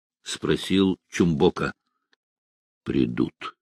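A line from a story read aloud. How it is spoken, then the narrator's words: Calm old man's reply. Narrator (Russian): спокойно ответил старик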